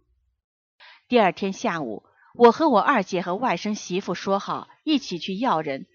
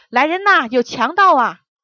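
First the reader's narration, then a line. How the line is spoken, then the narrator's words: Tense loud shout. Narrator (Chinese): 我紧张了一下， 本能地大声喊道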